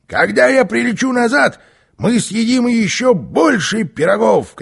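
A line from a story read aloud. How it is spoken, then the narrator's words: Shouted. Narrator (Russian): крикнул Карлсон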